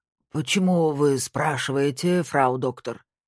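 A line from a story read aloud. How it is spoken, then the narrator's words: Grumbling old man, Saxon accent. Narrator (Russian): С саксонским акцентом проворчал старик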